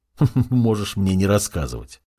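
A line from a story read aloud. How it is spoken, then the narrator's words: Chuckling. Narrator (Russian): хохотнул я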